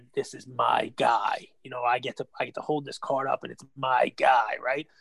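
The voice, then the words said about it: Imitates another person's voice. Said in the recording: “I'm miserable at the impersonations, but I'm trying my best, Lefkoe. ... I thought it was spot on.”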